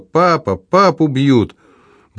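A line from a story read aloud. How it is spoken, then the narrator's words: Screaming at top of lungs. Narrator (Russian): он завопил во все горло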